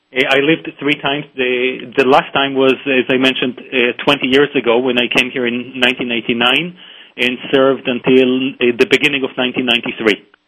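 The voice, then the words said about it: Speaks with a noticeable accent. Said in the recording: “the accent? ... Well, the accent”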